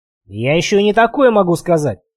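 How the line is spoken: Snapped. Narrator (Russian): огрызнулся Гильгоф

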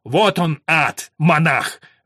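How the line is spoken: Growling. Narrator (Russian): прорычал Уильям

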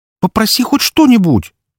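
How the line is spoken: Loud exclamation. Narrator (Russian): воскликнула она громче нужного

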